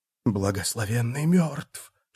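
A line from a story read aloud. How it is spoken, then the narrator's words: Group whispering. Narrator (Russian): шептали они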